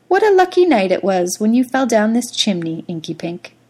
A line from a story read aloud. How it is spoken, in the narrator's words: Twinkletoes would sigh with happiness and say